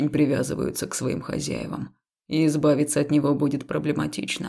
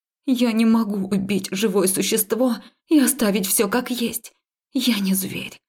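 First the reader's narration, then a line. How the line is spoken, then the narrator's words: Breathed out. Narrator (Russian): выдохнула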